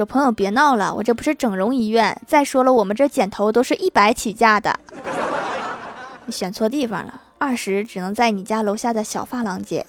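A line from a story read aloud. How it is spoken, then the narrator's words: Amused, laughing. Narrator (Chinese): 理发师笑了，说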